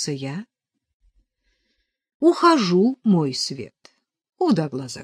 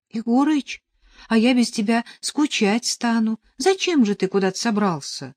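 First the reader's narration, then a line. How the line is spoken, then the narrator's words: Pleading. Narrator (Russian): взмолился я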